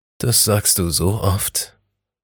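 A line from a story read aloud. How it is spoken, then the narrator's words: Murmured. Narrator (German): raunte er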